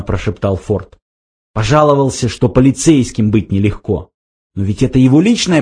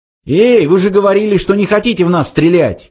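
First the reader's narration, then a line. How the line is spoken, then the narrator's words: Shouting. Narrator (Russian): крикнул он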